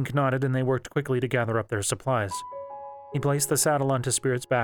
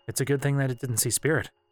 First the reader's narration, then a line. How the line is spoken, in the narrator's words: said